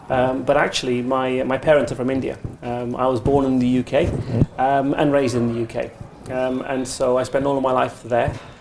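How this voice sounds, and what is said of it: English accent. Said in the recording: “as you can tell from my accent, I am English.”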